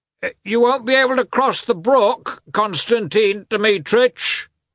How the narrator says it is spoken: the coachman called out

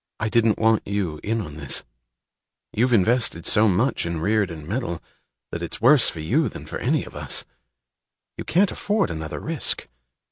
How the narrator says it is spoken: she said quietly

